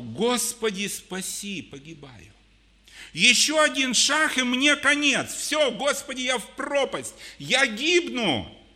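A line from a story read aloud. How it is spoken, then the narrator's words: Crying out desperately. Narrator (Russian): Петр закричал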